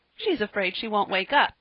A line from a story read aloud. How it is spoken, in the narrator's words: said Percy, laughing